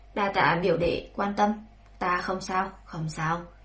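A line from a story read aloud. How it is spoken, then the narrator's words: Smiling. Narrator (Vietnamese): Tạ Thù mỉm cười, nói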